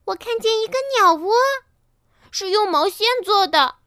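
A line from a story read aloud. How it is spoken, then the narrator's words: Child's sudden cry. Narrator (Chinese): 一个孩子猛地叫起来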